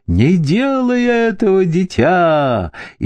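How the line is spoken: Frantic screaming. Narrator (Russian): истошно завопила миссис Хейтс

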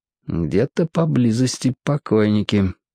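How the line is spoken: Quiet speech. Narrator (Russian): тихо проговорил

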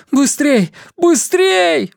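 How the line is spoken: Yelling. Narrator (Russian): вопил Бернард

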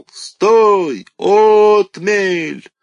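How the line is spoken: Strained, hoarse yell. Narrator (Russian): надсадно заорал

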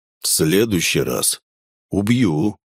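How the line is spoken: Calm warning, man. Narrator (Russian): спокойным тоном предупредил мужчина

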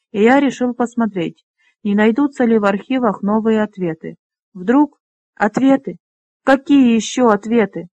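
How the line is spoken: Sudden angry exclamation. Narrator (Russian): воскликнула Леса, разом разозлившись на него

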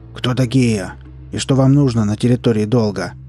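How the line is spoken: Growled. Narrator (Russian): рыкнула одна из куч хлама

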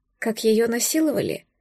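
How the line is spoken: Pained asking. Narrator (Russian): Уточнила я с болью в голосе от того, что он так спокойно про это спрашивает

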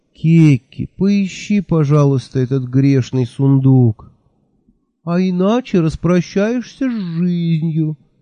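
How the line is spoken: Thin squeaky voice. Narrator (Russian): таким же тоненьким голоском добавил Мелифаро

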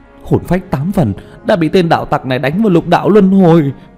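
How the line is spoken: Alarmed cry. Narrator (Vietnamese): chợt kinh hãi kêu lên

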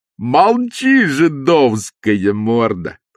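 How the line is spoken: Joyful shout. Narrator (Russian): радостно закричал чубатый атаман

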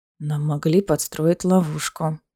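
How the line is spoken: Whispered. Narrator (Russian): шепнул Дорин

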